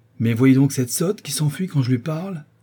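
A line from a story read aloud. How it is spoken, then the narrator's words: Exclaimed. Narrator (French): s'écria M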